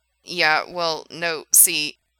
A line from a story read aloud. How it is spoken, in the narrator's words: stammered Frank